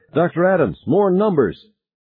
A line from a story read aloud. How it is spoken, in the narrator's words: she shouted